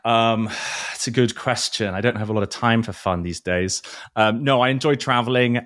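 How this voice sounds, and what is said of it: Non-local, non-New York accent. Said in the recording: “as you can probably tell from my accent that I'm not originally from here”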